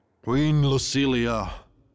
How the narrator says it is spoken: the Tiger King growled

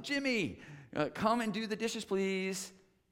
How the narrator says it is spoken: Lisa ... called out to him

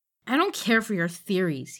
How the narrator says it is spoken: he spat

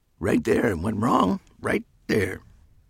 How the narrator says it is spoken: another muttered

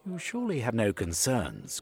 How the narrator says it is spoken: said in the smoothest tones

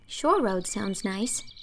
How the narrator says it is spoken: said Anne dreamily

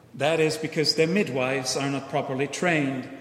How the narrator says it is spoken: Hillel calmly said

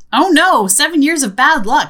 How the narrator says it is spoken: Hannah exclaims

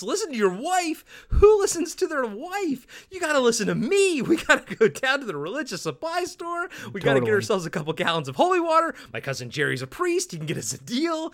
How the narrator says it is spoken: Art yells

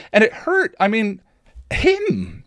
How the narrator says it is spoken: Willow exclaimed excitedly

